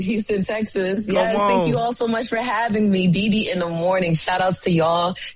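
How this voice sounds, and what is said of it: New York / New Jersey accent. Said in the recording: “I love that accent, though. Y'all hear her accent? That's that real New York accent ... That's that Jersey.”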